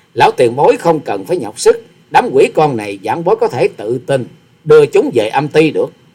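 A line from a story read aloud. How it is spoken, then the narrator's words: Laughing. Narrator (Vietnamese): Hòa sĩ Kiệt bật cười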